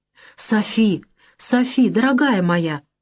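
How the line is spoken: Gentle speech. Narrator (Russian): мягко говорил Галаган

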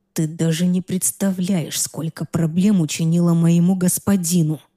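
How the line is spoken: Hissed in ear, unfamiliar voice. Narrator (Russian): прошипел мне на ухо незнакомый голос

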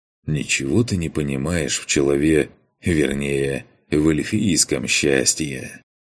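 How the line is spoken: Smiling through teeth, exhaling smoke. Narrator (Russian): улыбнулся Макс, сквозь зубы выдыхая ароматный яблочный дым

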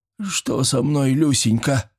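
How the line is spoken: Moaning, deathly ill voice. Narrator (Russian): простонал звенья конь голосом смертельно больного человека

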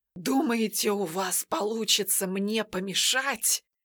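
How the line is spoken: Furious hoarse rasp. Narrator (Russian): В ярости прохрипел колдун

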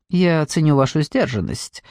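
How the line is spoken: Dry remark. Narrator (Russian): сухо заметил Марлоу

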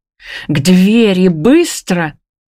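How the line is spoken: Loud meow. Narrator (Russian): мяукает громко Муар

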